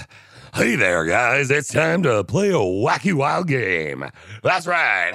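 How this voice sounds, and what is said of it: Cheesy game show host voice. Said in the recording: “you don't like my new game show voice?”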